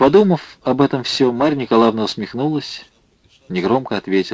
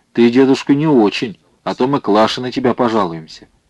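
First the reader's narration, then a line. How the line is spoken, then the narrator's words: Young girl's offended deep voice. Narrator (Russian): младшая девочка, Люба, сказала ему обиженным басом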